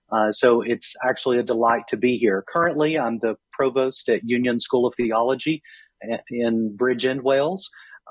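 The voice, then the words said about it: American southern accent. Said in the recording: “I originally grew up in Kentucky, so southern state, as you can hear from my accent. ... I'm never going to sound quite as English or Scottish or Irish as I would like to sound ... maybe I'll lose some of that southern.”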